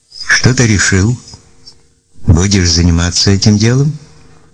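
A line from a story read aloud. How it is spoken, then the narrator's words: Plain question. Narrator (Russian): спросил Константин Викторович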